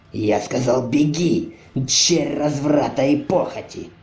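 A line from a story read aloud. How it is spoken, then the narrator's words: Bishop's growl. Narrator (Russian): прорычал архиерей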